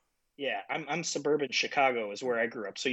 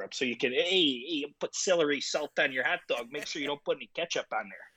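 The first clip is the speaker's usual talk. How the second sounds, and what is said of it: Exaggerated Chicago accent. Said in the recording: “it's the accent.”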